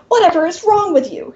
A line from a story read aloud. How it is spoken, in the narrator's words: he sputters